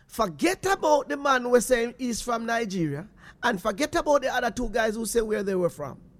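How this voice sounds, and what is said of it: Jamaican accent. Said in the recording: “Jamaican accent”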